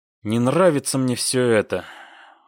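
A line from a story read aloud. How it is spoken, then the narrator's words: Sigh. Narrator (Russian): вздохнул Крупенников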